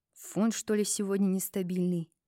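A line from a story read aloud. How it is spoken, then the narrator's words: Grumbling. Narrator (Russian): проворчал он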